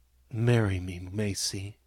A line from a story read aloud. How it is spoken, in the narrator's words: he whispered softly